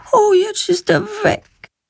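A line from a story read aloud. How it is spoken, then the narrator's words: Sad remark. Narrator (German): stellt sie traurig fest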